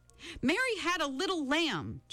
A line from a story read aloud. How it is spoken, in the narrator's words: Charles Wallace shouted